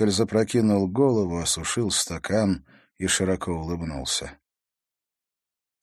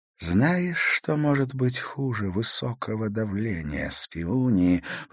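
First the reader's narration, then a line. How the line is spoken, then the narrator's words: Whispered. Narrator (Russian): прошептал Раскаль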